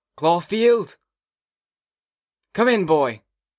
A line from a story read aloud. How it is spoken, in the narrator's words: He was always yelling outside class